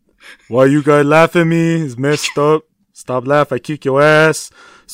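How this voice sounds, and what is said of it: Imitates another person's voice. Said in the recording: “impersonation ... pulls out the Joel Embiid”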